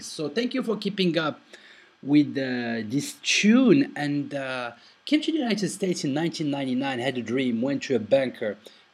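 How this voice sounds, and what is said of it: Thick foreign accent. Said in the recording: “if you think I have a thick accent, man, you should have heard me back then”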